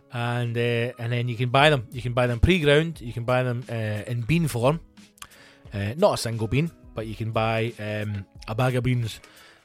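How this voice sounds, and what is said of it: Speaker's own regional accent. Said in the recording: “a nice word to say in my accent”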